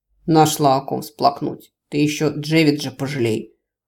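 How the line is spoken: Werewolf's scoffing snort. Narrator (Russian): хмыкнул оборотень

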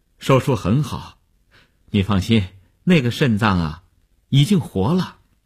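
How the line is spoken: Relieved, smiling. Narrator (Chinese): 医生见他终于发出了声音，放心地笑笑说

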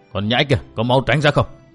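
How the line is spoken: Hot-tempered loud shout. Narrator (Vietnamese): Khoáng lục giáp tính nóng như lửa liền quát lớn

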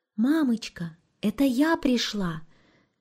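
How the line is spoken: Quiet. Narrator (Russian): тихо сказала Маришка

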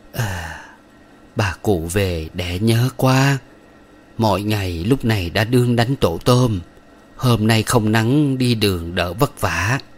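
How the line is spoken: Sighing. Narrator (Vietnamese): Bà thở dài

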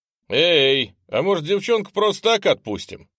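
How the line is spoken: Loud question. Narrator (Russian): спросил он громко

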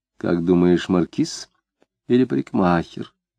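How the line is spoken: Whisper. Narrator (Russian): прошептала она

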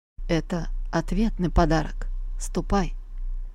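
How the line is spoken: Gloomy. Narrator (Russian): он ... мрачно сказал

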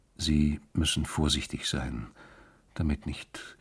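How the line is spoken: Quiet voice. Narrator (German): sagte er mit leiser Stimme

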